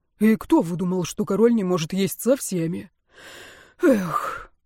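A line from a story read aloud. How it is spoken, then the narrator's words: Grumbled. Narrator (Russian): король Карл пробурчал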